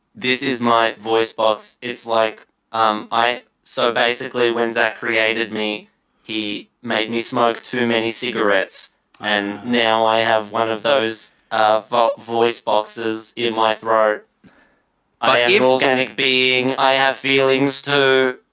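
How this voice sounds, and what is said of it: Robotic character voice. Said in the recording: “Robot ... talking like a robot”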